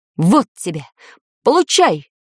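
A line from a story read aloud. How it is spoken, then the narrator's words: Man shouting. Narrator (Russian): крикнул мужчина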